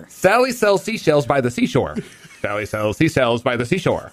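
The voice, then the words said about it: Speaking with a noticeable lisp. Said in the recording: “you've always had a little bit of a lisp, but I think it's becoming more pronounced ... Oh, the second time was way worse.”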